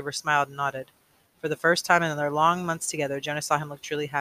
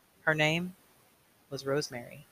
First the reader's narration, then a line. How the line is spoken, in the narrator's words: said